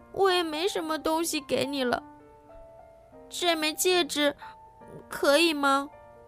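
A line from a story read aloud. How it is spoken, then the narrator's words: Crying girl. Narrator (Chinese): 女孩哭着说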